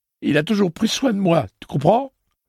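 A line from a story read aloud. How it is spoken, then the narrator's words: Words choked by heavy sobs. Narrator (French): Il sanglotait si fort que Roland avait peine à saisir ses paroles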